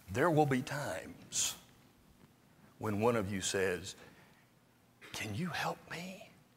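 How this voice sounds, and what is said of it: Whispering. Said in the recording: “I'm going to whisper it so that only we know about it.”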